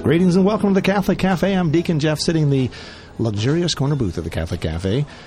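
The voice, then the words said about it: Polished radio announcer voice. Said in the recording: “You got your radio voice on. ... I flipped the switch. ... My radio voice on.”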